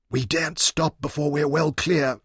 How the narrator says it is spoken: Leon whispered

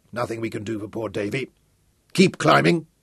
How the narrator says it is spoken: grunted

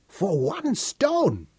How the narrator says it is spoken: Sarah exclaimed

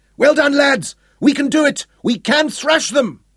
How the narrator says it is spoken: shouted

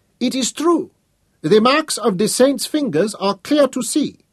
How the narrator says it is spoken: The old man exclaimed

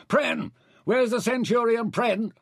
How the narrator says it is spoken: shouted to the guards

